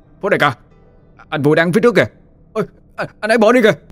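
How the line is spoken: Crying out. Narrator (Vietnamese): Trung đã la lên

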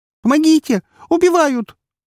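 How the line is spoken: Exhausted shrill squeal. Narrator (Russian): взвизгнула Наташа и как бы из последних сил

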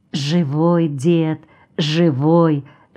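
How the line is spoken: Whispered. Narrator (Russian): шептал Аникей

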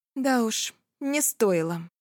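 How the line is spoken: Said dryly. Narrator (Russian): сухо говорю

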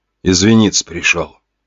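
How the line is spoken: Ashamed humiliated mutter. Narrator (Russian): пробормотал тот, сгорая от стыда и от унижения

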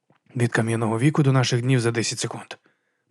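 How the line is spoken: Whisper. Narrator (Ukrainian): прошепотів Гаррі

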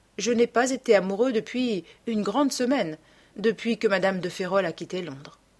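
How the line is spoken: Murmured smiling. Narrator (French): murmura Dorian en souriant

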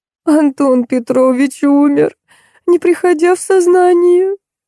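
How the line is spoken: Sobbing. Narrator (Russian): позвонила Лариса и, рыдая, сказала

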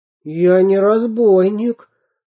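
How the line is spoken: Confused babble. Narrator (Russian): пролепетал ничего не понимающий Веня

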